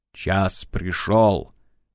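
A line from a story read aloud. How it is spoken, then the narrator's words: Plain. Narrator (Russian): сказал мастер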